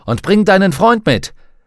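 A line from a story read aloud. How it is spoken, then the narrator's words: Man calling out. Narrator (German): rief der Texaner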